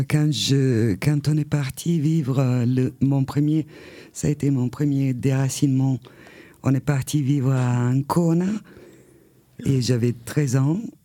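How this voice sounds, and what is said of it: Italian accent speaking French. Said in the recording (French): “j'ai un accent, je ne peux pas le contrôler, mais j'ai un accent italien”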